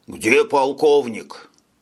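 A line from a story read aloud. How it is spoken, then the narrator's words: Displeased question. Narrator (Russian): недовольным голосом поинтересовался Шойбле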